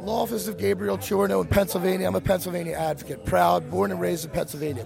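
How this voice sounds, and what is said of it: Slightly hoarse voice. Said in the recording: “Excuse my voice a little hoarse.”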